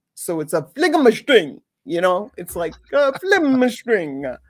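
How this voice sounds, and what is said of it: Bad put-on Italian accent. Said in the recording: “I'm in a really bad way of that with the Italian accent”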